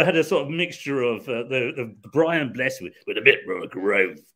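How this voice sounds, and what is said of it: Usual voice. Nothing is said of it.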